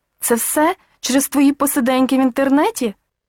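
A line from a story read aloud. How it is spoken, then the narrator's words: Irritated exclamation. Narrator (Ukrainian): роздратовано вигукнула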